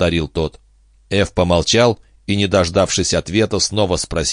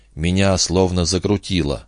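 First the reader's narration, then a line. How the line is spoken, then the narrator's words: Barely audible. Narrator (Russian): еле слышно выговорил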